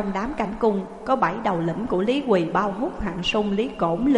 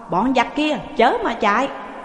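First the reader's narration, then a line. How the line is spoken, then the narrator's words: Shouting loudly. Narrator (Vietnamese): Hai tướng đi đầu quát to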